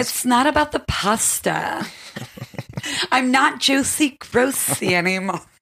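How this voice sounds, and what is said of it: Drew Barrymore impression, over-enunciated. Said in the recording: “you do an amazing Drew Barrymore impression ... if you really want to nail a Drew Barrymore, you have to like put your mouth to the side and really over enunciate”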